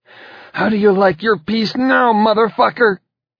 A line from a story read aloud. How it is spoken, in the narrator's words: she cried